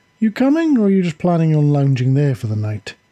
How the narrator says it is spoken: She asked sweetly

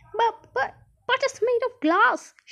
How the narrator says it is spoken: shouted Grandpa Joe

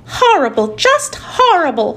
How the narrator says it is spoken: she cried

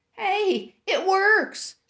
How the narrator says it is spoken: she called out

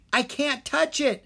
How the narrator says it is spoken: Drake cried

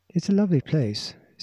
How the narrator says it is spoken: said Anne with a sigh

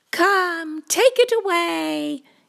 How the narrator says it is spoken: yelled Little Cat A

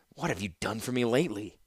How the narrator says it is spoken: she snarled quietly to Mishra

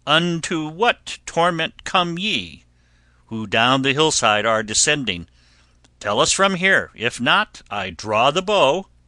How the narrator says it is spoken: from afar one cried

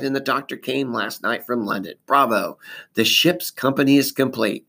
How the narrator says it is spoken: cried

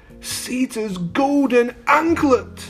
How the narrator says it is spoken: he cried

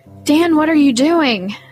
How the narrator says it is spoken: I shouted

